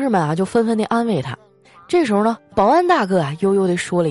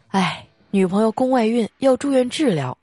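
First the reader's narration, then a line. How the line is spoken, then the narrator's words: Sighing. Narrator (Chinese): 他叹一口气啊，说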